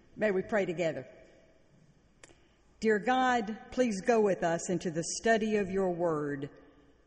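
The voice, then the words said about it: Southern American accent. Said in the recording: “I do hope my accent will not be too distracting, that you will not feel that you're on the set of Steel Magnolias.”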